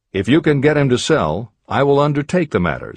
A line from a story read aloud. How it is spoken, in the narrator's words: said Morgan